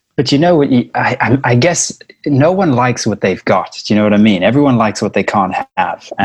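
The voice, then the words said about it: South African accent. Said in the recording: “the South African accent I've got”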